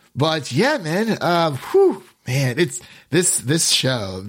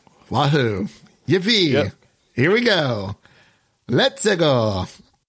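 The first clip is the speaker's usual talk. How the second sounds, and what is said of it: Cartoonish Mario video game voice. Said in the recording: “my best Mario impression”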